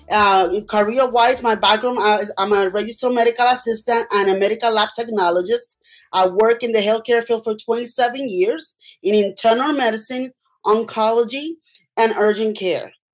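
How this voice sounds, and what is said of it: Puerto Rican accent. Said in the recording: “you can tell by my accent, I'm from Puerto Rico”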